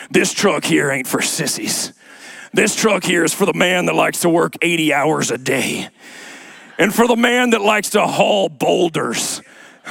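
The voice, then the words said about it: Deep-voiced Southern accent. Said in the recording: “a voice that's down here. He's got this Southern accent.”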